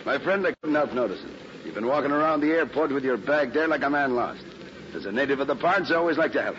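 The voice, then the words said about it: Irish accent. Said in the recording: “Okay, Irish ... not with your accent,”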